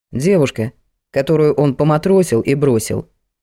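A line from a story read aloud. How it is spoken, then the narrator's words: Plain. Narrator (Russian): ответил ей Николай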